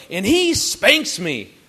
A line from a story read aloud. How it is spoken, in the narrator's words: she then yells out as loud as she could go